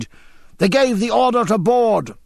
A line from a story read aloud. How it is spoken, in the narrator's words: James seized his arm and shouted